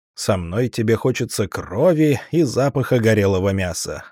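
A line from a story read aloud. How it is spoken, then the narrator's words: Laughing. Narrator (Russian): рассмеялся я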